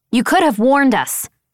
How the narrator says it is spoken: I snapped

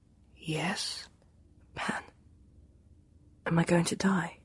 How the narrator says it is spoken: Pantalaimon whispered

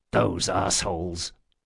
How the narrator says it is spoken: muttered Locke

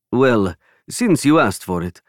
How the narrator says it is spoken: Alessandro chuckled

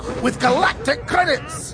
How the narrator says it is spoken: snapped Sir Robert

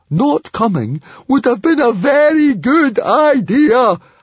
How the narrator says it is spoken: howled Fishlegs

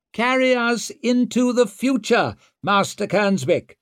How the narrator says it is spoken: shouted Orso, with that infinitely good-humoured smile

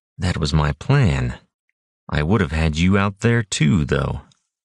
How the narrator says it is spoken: Kyrus thought wearily

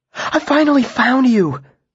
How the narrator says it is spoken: she said breathlessly

